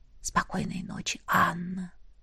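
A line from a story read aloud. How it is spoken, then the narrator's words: Whisper. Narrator (Russian): шепнул он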